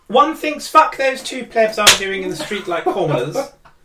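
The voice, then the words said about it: Queen Elizabeth II impression. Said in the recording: “Queen Elizabeth II”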